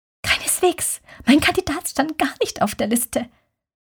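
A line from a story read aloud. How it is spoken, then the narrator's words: Whispered. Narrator (German): flüsterte Bernadette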